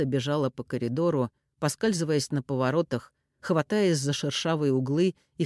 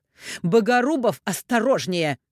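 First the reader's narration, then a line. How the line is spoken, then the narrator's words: Sharp rebuke. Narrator (Russian): прикрикнула на него Софья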